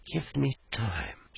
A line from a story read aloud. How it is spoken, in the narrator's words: she softly said